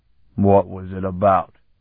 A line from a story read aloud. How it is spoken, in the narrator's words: one of the loafers growled suspiciously